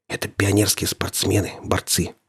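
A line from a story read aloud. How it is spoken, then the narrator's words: Whispered into ear. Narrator (Russian): шепнул на ухо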